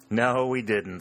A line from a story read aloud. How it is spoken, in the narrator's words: said Harry, with a laugh